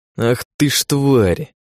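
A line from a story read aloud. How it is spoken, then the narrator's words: Through gritted teeth. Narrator (Russian): процедил Алекс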